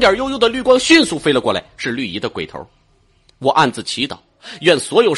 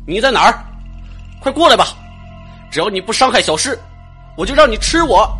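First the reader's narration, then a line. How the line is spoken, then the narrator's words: Loud shout. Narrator (Chinese): 我大喊道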